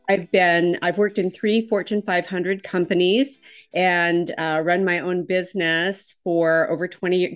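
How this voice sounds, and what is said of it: Minnesota accent. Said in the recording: “I'm originally from Minnesota, so I have absolutely the wrong accent.”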